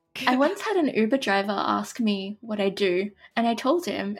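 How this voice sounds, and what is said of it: Australian accent. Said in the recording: “I'm Australian. I don't know if you can tell that from my accent.”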